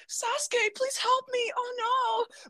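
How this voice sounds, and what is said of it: Whiny female anime character voice. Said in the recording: “How'd you do that voice? ... How do you do that voice so well? ... studying the annoying bitchiness of like other female garbage characters in anime”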